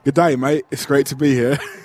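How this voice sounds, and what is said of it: Put-on Australian accent. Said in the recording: “could you give us an Australian accent then? ... It's going to be really bad. ... That's pretty good. That's pretty good.”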